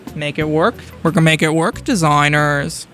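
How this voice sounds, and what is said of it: Bad Tim Gunn impression. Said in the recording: “That was a really bad Tim Gunn impression.”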